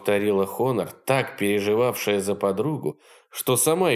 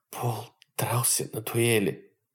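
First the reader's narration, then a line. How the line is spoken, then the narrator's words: Muffled whisper. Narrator (Russian): прошептала она, уткнувшись в плечо подруги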